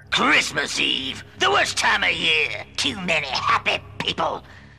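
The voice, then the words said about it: Cartoon voice imitating Yosemite Sam. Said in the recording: “he sounds like Buster Bunny doing an impression of Yosemite Sam.”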